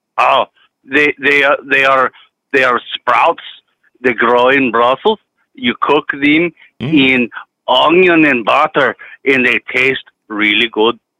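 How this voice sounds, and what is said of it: Put-on South African accent. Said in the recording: “crazy accents because this South African guy gave me one and I keep changing my accent now”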